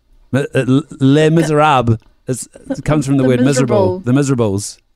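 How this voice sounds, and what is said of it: Put-on French accent. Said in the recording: “Are you doing a inappropriate accent ... you can't get in trouble with the French accent”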